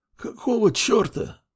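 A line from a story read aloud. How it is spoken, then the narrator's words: Old man's tearful mutter. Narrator (Russian): Вытирая слезы, пробормотал старик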